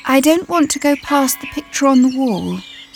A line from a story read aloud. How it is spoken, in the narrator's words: he said in a small voice